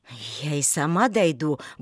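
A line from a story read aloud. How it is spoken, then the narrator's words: Grumble. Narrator (Russian): буркнула она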